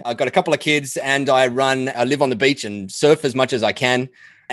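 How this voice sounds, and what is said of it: Australian accent. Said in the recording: “the most recognizable MSP voice ... Have I got the most recognizable voice because it's an Australian accent?”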